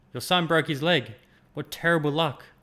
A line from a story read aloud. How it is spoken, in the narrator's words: The neighbors cried